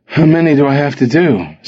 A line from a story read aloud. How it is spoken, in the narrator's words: Simon panted